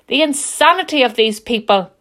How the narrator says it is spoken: Magnus bellowed

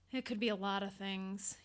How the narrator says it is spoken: he sighed

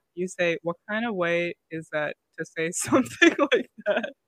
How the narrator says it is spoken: Stacy laughs

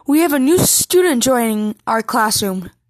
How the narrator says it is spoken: she said cheerfully

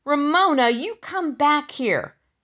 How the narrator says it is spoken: yelled Henry

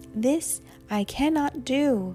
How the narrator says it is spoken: Luba cried

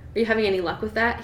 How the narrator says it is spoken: He asked in an offhand tone

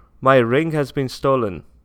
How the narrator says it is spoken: shouted the emperor

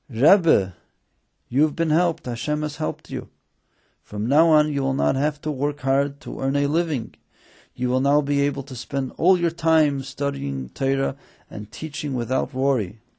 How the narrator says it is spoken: the students … they called out happily

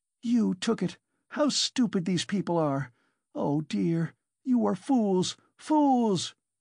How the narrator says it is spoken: she cried

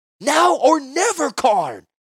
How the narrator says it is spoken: Joyra shouted

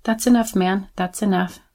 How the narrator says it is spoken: started mumbling with a trembling voice

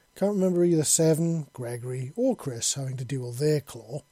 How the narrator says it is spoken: Raymond said sarcastically

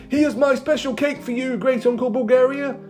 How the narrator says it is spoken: shouted Madame Cholet

